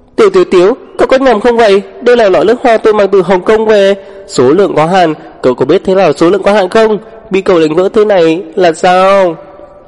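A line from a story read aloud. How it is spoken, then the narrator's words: Wailing, clamoring. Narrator (Vietnamese): lăng song bắt đầu kêu gào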